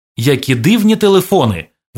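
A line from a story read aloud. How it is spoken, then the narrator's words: Exclaimed. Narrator (Ukrainian): вигукнув Ігор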